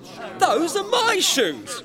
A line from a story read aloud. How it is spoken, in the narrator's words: cried Passepartout stupidly